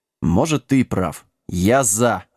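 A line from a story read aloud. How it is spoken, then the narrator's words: Growled. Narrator (Russian): рыкнул Сэм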